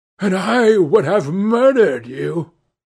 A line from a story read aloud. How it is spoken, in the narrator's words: he cried